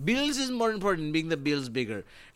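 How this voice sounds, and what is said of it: Weak attempt at Filipino accent. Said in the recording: “I can't do a fucking Filipino accent.”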